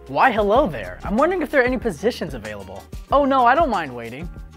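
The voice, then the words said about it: Exaggerated white-sounding polite voice. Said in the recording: “try to sound as white as possible. I sound like Bill Gates impersonating your mailman.”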